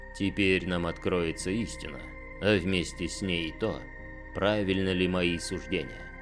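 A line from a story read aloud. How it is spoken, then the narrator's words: Soft. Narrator (Russian): мягко сказал Дорн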